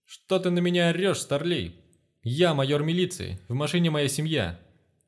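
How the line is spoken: Man shouting back. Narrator (Russian): кричал в ответ красномордый мужик

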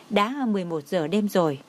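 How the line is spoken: Smiling. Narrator (Vietnamese): Nikki mỉm cười nói

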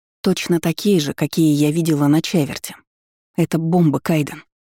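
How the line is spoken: Whispered. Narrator (Russian): прошептала

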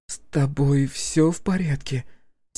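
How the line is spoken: Quiet question. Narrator (Russian): тихо спросила Василиса

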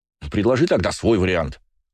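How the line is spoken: Brother snapping back. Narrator (Russian): огрызнулся брат

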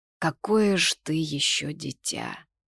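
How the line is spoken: Shaky sigh. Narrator (Russian): Он прерывисто вздохнул

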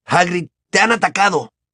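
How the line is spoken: Exclaimed. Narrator (Spanish): exclamó Ron

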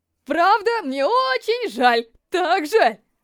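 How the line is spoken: Boy's loud interrupting apology. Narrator (Russian): Мальчик прерывает хулигана и просит прощения так громко, как только может

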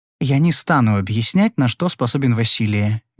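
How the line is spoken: Soft female reply. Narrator (Russian): мягко ответила девушка

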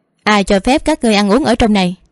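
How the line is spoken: Haughty, cold. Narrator (Vietnamese): Nàng ta cao cao tại thượng lạnh lùng mở miệng nói

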